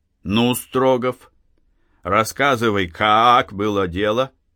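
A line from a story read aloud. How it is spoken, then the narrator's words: Read aloud. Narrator (Russian): прочитал вслух следователь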